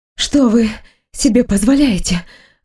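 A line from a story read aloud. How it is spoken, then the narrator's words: Breathless exhale. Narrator (Russian): выдохнула я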